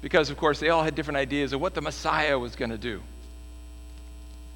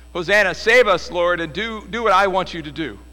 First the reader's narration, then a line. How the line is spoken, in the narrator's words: they shouted